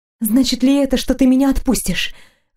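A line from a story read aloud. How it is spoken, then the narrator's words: Breathless. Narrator (Russian): выдохнула я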